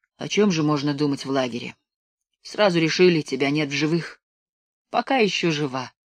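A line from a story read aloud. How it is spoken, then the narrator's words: Sad smiling. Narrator (Russian): грустно улыбнулась белка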